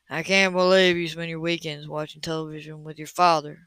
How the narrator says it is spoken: he murmured

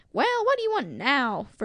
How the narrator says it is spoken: Freddy growled

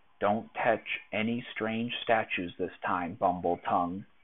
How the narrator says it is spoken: she whispered

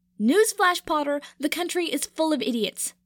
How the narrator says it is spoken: Pansy shouted, her face starting to flush red

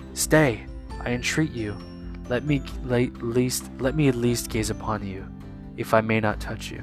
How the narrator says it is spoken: it exclaimed

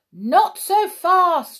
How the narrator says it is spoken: shouted the judge

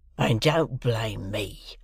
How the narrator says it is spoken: growled the convict

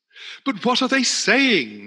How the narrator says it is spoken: shouted the reporters

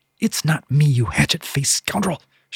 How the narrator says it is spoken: she spat

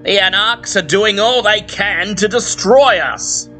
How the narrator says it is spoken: he bellows, trying to stir the crowd

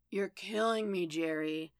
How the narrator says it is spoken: Jess moaned

